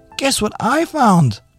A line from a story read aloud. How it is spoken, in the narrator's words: she shouted